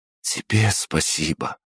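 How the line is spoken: Whisper. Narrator (Russian): прошептала она

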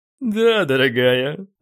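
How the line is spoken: Six voices, laughing together. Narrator (Russian): отозвались сразу 6 и дружно рассмеялись

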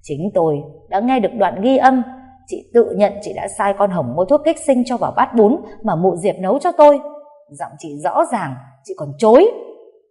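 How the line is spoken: Hissing through gritted teeth. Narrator (Vietnamese): cô Bích đã nghiến răng rít lên

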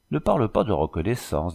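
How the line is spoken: Simple, charming tone. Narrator (French): dit l'Indienne d'un ton simple, charmant

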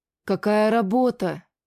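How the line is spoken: Sudden admiring exhale. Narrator (Russian): Неожиданно восхищенно выдохнул Масса

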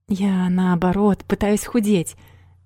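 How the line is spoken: Sighing. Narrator (Russian): вздохнула Юна

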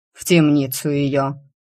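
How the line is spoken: Furious growl. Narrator (Russian): яростно рычала

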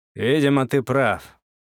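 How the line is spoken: Heavy sigh. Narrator (Russian): тяжело вздохнул дядя Коля

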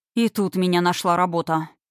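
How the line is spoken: Male grumble from behind. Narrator (Russian): пробурчал мужской голос за Кириной спиной

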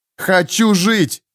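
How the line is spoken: Nearly howling. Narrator (Russian): едва не взвыла она

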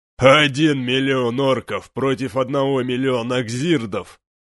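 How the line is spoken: Booming magically amplified laughter. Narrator (Russian): расхохотался Гронк, его усиленные магией шаманов голос гулко раскатился над фронтом

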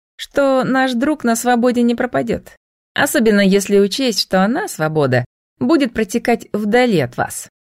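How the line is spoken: Snide, smirking. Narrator (Russian): она ехидно ухмыльнулась Айвору

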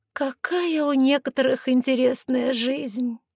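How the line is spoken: Dreamy sigh. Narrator (Russian): мечтательно вздохнула гадалка

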